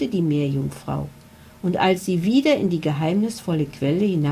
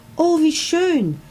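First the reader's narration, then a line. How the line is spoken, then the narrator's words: Called out. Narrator (German): rief Laura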